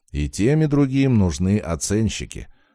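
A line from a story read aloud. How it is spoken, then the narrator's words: Calm smiling reply. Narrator (Russian): спокойно улыбнулся я в ответ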